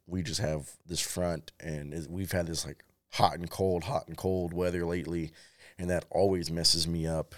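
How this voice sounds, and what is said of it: Voice fading in and out. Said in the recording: “My voice has been fading in and out. My allergies have flared up again.”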